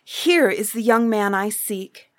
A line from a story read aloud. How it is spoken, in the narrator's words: Gladly the princess cried